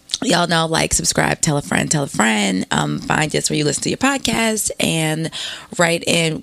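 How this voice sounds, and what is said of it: Hoarse, froggy voice. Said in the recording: “Miss froggy Miss. Voice... that straight off the plane voice... Forgive my voice. It's not like the WB Frog or some shit like that. It was worse.”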